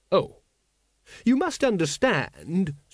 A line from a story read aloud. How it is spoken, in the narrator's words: said Once, fiddling desperately